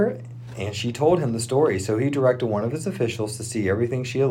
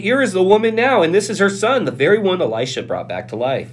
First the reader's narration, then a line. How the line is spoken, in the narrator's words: Gehazi exclaimed